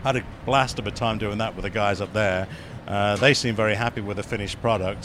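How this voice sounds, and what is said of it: English accent. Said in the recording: “if anything else comes up where you need an English accent”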